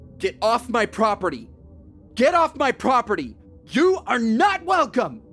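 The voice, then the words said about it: Yelling. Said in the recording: “I didn't stop yelling.”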